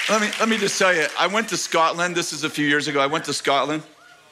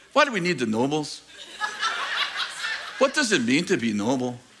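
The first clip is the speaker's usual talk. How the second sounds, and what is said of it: Put-on Scottish accent. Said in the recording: “That's my Scottish accent, the best I can do.”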